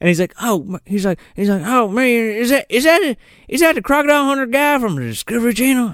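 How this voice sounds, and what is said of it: George W. Bush impression. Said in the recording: “the Bush impression ... a full-on fucking guy pretending to be Bush”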